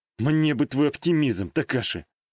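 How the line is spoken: Heavy sigh. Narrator (Russian): Тяжело вздохнул я

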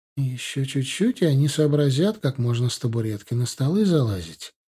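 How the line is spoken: Completely calm. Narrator (Russian): совершенно спокойно произнесла Ирина Леонидовна

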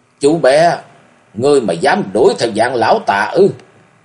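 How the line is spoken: Sudden loud question. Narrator (Vietnamese): Đột nhiên lão lớn tiếng hỏi

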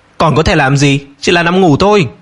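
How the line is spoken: Angry reply. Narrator (Vietnamese): Tất An tức giận trả lời

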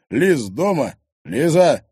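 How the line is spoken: Shout. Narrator (Russian): крикнул Егор

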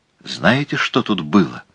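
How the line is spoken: Whisper. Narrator (Russian): шепнула она

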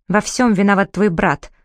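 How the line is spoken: Dry reply. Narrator (Russian): сухо ответил Дарик

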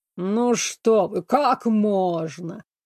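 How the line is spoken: Slow, through teeth. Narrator (Russian): медленно процедил герцог Авилари

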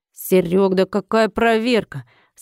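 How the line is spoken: Nervous snort. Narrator (Russian): Санитар нервно хмыкнул

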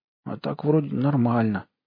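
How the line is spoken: Mumbled. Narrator (Russian): промямлил Айгон

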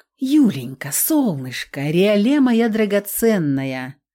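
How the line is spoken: Deceptively tender voice. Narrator (Russian): обманчиво ласковым голосом начал болотный лорд

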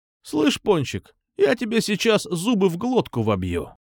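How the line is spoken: Said calmly. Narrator (Russian): спокойно сказал

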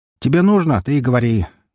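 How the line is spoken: Loud cheeky shout. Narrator (Russian): Громко крикнул я с наглой улыбкой

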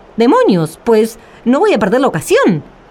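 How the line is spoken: Exclamation. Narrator (Spanish): exclamó Juan el Bobo

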